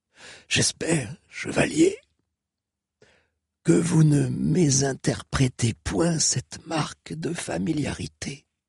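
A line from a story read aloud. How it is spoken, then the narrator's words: Wheezing, breathless speech. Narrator (French): dit Odéarde entre deux inspirations sifflantes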